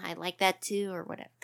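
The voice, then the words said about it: Mock girly voice. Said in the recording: “Is that your girl voice? Is that what that's supposed to be?”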